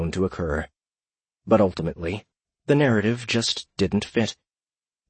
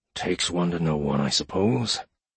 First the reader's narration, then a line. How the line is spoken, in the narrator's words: Edward mumbled